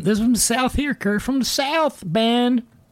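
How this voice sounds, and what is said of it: Exaggerated hick-like Southern accent. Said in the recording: “that hick-like accent”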